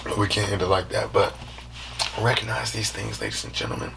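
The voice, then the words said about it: Worn-out, fading voice. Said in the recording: “My voice is going out. I've been talking today.”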